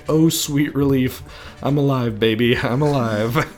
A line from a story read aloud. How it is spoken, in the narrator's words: Rocco lets out a deep sigh